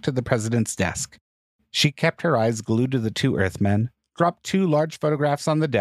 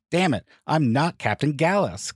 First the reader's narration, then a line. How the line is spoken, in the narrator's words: Gallus shouted